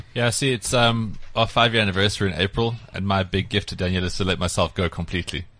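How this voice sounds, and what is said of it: Sarcastic delivery. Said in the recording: “he's being sarcastic”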